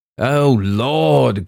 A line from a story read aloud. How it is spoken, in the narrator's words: groaned H